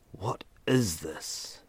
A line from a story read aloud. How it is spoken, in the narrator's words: Ethan whispered, his voice betraying the fear sprouting in the pit of his stomach